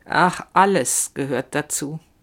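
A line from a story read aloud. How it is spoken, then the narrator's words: Slow. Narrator (German): sagt sie langsam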